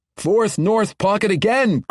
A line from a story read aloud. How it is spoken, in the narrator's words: cried Ogden, seeming somewhat surprised